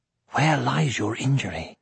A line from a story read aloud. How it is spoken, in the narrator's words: whispered Aragorn